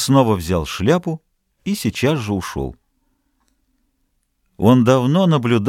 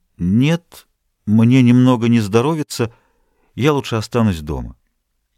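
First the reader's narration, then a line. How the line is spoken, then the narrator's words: Uncertain reply. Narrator (Russian): Она неуверенно ответила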